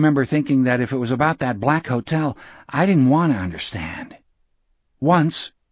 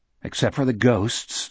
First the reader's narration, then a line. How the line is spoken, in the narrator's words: Jack muttered